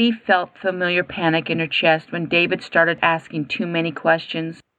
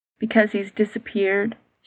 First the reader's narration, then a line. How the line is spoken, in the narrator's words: said quietly